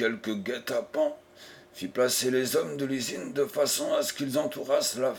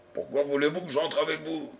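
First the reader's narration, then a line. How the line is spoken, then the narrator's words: Grumbling. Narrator (French): grommela-t-il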